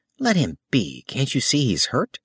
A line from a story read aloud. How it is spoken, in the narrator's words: A girl's voice said sharply